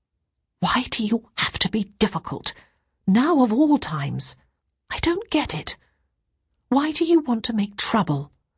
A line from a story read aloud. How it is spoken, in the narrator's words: Ruth said in a whisper